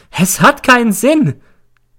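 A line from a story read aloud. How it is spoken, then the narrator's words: Shrieking. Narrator (German): kreischt sie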